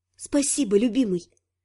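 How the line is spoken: Whispered. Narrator (Russian): прошептала

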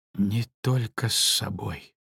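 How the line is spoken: Quiet. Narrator (Russian): тихо ответил он

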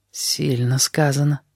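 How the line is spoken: Blind man whispering. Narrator (Russian): прошептал слепой

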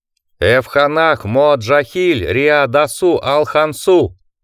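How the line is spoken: Thundering, unfamiliar voice. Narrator (Russian): прогремел Ада незнакомым Алексу голосом

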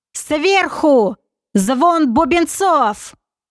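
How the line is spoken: Loud, highly dramatic yell. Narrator (Russian): с максимальным пафосом, как он это любил делать, громко заорал

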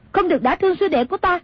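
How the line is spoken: Sharp shout. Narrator (Vietnamese): Nàng quát

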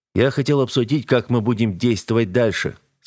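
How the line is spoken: Plain. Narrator (Russian): сказал ему

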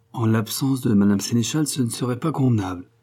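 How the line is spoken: Curt retort. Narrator (French): répliqua sèchement René

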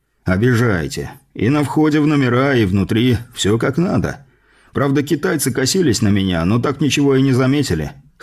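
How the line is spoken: Wry snort. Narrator (Russian): хмыкнул он

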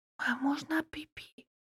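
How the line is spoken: Whispered in the ear. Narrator (Russian): прошептала на ушко Катюшка

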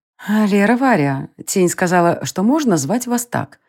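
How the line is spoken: Gentle queen's voice. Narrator (Russian): ласково сказала королева

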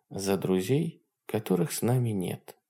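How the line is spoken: Quiet. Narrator (Russian): тихо сказала она

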